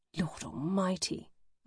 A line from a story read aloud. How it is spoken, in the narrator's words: I whisper